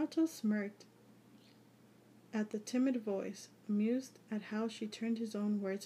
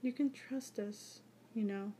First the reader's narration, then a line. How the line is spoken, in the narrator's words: she said softly